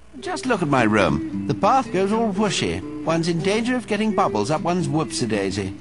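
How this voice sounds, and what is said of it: Poncy British accent, gnome character. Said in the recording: “the gnome has a poncy British accent”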